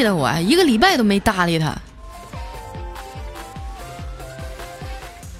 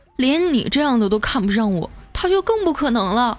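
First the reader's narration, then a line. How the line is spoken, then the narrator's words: Sighing. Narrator (Chinese): 小黑叹了口气说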